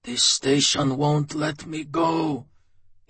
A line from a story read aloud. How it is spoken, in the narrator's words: he said in a hoarse, low voice